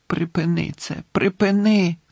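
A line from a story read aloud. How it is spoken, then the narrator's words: Moaned. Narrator (Ukrainian): стогнав Дамблдор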